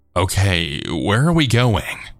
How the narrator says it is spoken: said, my voice shaking

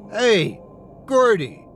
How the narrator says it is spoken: Marcus yelled at the creature

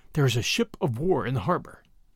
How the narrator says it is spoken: Bradley answered in a whisper

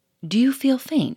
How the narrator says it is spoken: he said in an anxious voice

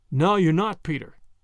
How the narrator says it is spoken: Davies said

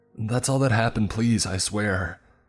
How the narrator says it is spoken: I cried out, hoping for mercy

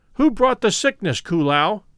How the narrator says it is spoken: demanded Kilo Liana

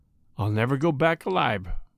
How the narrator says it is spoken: said the burglar quietly

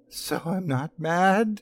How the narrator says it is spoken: cried

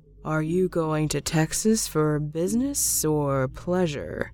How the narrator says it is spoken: he asked in a slow monotone

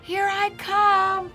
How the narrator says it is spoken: Peter shouted

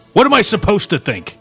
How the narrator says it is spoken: Max almost shouted in her face

